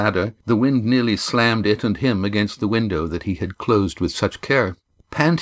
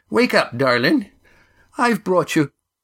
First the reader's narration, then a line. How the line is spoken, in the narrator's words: Molly began cheerfully and then stopped